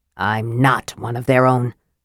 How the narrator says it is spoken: Flint snarled

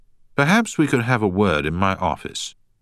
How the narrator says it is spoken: the manager added

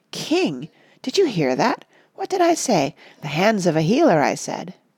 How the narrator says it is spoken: Iareth exclaim

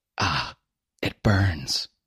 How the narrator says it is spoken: I said through clenched teeth

